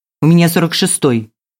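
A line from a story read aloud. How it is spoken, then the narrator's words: Impatient bark. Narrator (Russian): рявкнула Милена, потеряв терпение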